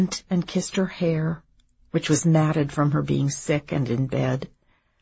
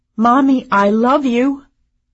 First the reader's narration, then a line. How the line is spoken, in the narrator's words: I called out